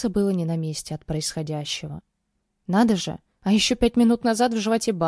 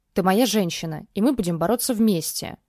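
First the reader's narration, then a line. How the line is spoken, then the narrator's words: Growl. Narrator (Russian): прорычал он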